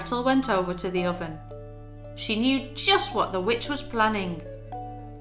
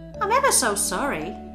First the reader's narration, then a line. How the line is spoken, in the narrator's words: she said